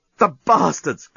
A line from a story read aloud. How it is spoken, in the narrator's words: groaned the journalist